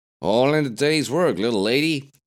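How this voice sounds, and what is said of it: John Wayne impression. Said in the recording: “in the best John Wayne impression she could manage”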